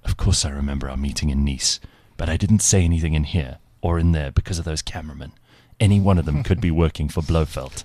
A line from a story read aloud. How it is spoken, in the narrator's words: in a hushed voice said